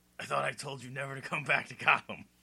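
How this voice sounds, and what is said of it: Impression of Ryan Atwood. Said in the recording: “let's see if I can do some Ryan here ... do an impression ... it was more Benjamin McKenzie than it was ... Brian Atwood.”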